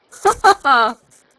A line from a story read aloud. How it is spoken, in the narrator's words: laughed the queen, louder than before